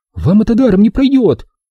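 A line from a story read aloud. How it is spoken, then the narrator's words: Shouted. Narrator (Russian): выкрикнула она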